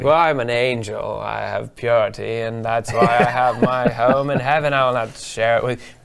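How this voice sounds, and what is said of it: Put-on angel character voice. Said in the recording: “Good angel accent. ... I don't know if that's north or south heaven, or maybe lower east side.”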